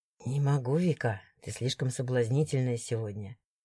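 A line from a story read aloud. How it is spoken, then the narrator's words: Whisper. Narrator (Russian): шептал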